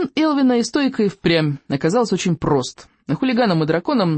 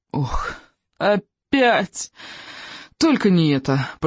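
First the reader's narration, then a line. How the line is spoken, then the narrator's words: Nasal groan. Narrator (Russian): простонали Икинг с рыбьеногом, зажав носы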